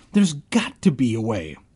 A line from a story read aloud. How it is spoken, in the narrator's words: I cried